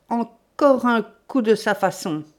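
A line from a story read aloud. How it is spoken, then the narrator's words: Exclaiming. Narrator (French): s'écria Ganimard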